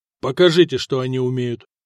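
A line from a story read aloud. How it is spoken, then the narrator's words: Sharp reply. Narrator (Russian): резко ответил Ираклий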